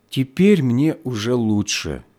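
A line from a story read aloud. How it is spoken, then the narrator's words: Deep sigh, then speaking. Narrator (Russian): она глубоко вздохнула и проговорила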